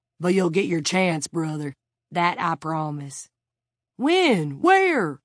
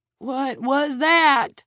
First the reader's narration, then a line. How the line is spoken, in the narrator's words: Red shouted in a cracked voice